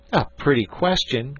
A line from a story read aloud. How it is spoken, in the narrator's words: cried Jack